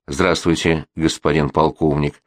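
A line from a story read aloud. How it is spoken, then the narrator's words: Calm reply. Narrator (Russian): спокойно ответил священник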